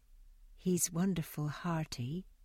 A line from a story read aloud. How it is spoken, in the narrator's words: she went on with a little sigh